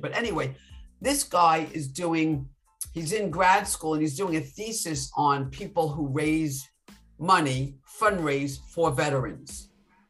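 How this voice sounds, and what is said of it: New York, Long Island accent. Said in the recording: “I could tell by your accent you're from New York.”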